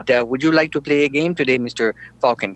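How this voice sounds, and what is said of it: Computer-like movie voice imitation. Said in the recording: “my Professor Falcon imitation ... Sounds just like him, doesn't it? Sounds like the computer.”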